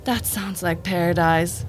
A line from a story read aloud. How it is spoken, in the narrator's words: the monkey sighs